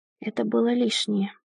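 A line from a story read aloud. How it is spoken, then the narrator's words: Whisper. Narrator (Russian): прошептала я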